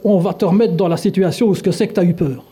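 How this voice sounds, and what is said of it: Put-on Belgian French accent. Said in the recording (French): “Ça, c'est l'accent belge.”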